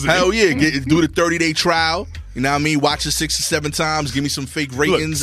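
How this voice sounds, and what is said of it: Strong regional accent. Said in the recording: “y'all don't understand my accent,”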